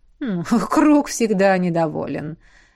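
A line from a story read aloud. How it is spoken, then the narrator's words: Sudden laughter. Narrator (Russian): неожиданно рассмеялся Эдмунд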